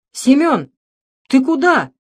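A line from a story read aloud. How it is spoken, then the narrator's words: Shout. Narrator (Russian): закричала Устинья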